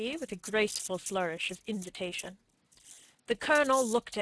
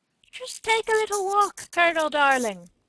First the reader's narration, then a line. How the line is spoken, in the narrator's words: said a smooth, mocking voice behind him